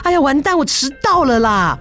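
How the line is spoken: Startled cry. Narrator (Chinese): 小倩愣了一下，接下来叫出声来说

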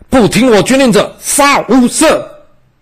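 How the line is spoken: Loud scolding. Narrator (Chinese): 李良大声呵斥说

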